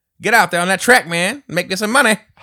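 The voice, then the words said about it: Pimp character voice. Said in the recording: “like I sound like a pimp”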